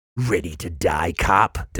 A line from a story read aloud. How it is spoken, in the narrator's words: Del Vecchio hissed